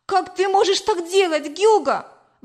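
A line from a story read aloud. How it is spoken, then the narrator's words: Exclamation. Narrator (Russian): воскликнула я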